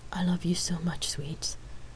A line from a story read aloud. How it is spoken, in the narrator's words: she whispered